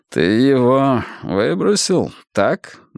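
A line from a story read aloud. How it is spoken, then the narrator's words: Gloomy question. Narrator (Russian): мрачно спросил Рокки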